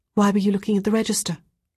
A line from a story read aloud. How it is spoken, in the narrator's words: Ruth asked quickly